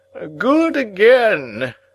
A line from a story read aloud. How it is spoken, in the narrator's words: Pumblechook cried audibly